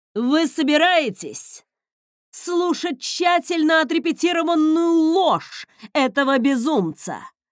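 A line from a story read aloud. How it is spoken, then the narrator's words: Shouting to a crowd. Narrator (Russian): прокричал Марсель своему народу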